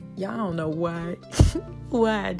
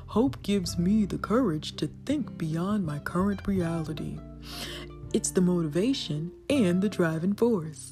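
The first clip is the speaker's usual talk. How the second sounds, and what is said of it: Put-on deep voice. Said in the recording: “did that deep voice”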